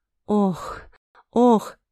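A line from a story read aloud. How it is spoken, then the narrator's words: Blissful exhale. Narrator (Russian): выдохнула с наслаждением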